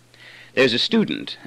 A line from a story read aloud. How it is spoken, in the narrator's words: I said